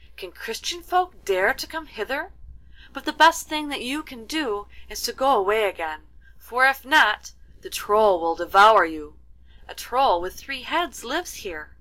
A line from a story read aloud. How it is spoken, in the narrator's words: she cried